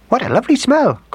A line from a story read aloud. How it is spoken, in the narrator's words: cried the mother mouse